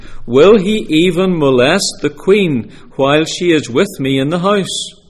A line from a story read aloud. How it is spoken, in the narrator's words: The king exclaimed